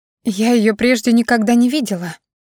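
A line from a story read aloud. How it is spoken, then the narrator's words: Breathed out at last. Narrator (Russian): наконец выдохнула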